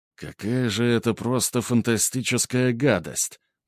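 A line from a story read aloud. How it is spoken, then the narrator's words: Muttering. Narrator (Russian): пробормотал он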